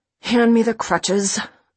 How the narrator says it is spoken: I growl at my mother

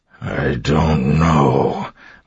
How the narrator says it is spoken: Marsh said, his voice coming out in a growl

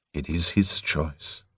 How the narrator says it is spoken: the Lord said softly

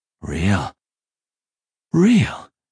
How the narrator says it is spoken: Joshua breathed

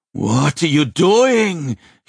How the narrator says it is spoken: he shouted

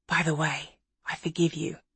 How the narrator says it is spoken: whispered in her ear

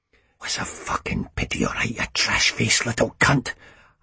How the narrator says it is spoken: I hissed at his closed eyes

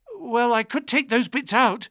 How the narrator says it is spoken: I said desperately

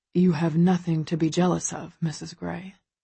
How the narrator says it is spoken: he murmurs close to my ear

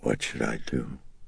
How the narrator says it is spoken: in a throaty, husky whisper, she asked him

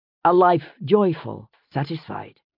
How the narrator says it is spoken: he murmured to himself

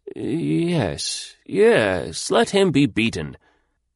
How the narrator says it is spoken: the old magistrate would quaver forth

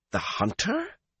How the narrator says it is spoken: Matt exclaimed

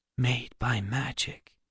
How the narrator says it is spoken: Alex whispered

